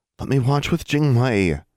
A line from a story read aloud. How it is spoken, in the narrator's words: Anna pleaded